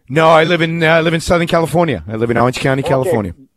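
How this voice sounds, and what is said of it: Slight New York accent. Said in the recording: “I detected somewhat of a New York accent. ... I have a mishmash of an accent. It doesn't really belong anywhere.”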